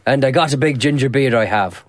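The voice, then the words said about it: Impression of Mark O'Brien's accent. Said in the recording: “A man with that accent should not be growing a big ginger beard ... Well, he talks like this.”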